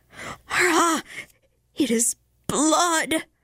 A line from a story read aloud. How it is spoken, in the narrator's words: with a husky scream, the helper vociferated